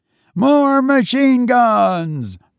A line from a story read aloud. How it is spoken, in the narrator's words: Bill yelled to Tom